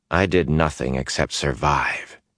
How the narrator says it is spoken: said in a dry voice

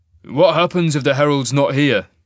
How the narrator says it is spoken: Cain grunted to Isaac

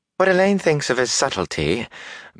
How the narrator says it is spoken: Bellavere said sweetly

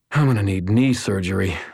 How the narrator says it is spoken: I sighed

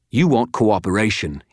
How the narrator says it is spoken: spat

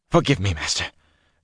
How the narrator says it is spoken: Sharban whispered

